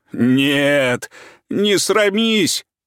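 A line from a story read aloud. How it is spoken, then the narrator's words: Hoarse wheezing. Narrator (Russian): хрипел он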